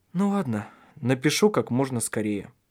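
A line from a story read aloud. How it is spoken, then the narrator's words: Sad, smiling. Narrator (Russian): сказал он, грустно улыбаясь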